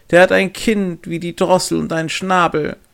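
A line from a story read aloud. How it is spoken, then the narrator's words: Calling out, laughing. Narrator (German): rief und lachte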